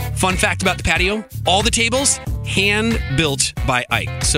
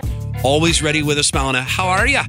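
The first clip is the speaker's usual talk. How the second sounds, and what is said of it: Awful impersonation of thick Irish accent. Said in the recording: “immigrated from Ireland in 2007 and still sports the really thick accent ... that's an awful impersonation”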